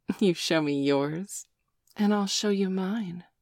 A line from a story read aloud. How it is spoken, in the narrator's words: the girls answered with a mischievous giggle